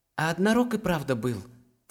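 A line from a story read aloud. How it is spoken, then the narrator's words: Quiet whisper. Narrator (Russian): тихо прошептал Даран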